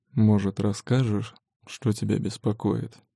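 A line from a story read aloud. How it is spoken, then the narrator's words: Hoarse warm whisper. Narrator (Russian): Опускает хриплый шёпот тёплым дыханием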